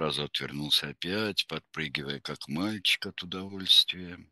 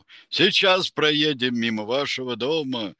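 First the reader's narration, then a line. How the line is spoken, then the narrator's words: Shout. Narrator (Russian): Роман крикнул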